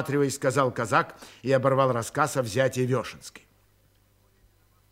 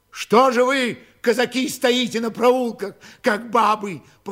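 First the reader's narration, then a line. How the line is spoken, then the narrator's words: Crying shout. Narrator (Russian): плачуще крикнул он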